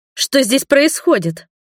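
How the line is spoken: Exclaiming. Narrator (Russian): воскликнула я

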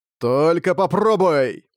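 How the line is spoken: Old man's nervous shout. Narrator (Russian): патриарх нервно прокричал в ответ

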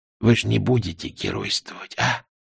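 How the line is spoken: Whisper. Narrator (Russian): прошептал один

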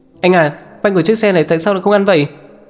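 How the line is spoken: Boy shouting. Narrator (Vietnamese): Cậu nhóc lái xe hét lên

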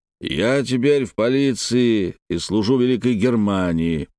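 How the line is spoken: Deep bass voice. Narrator (Russian): пробасил Хряк

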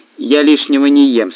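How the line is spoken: Plain. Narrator (Russian): сказала Лолита

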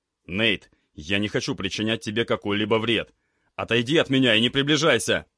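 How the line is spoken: Pained shout. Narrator (Russian): Крикнул я и поморщился от мысли, что мне предстоит сделать

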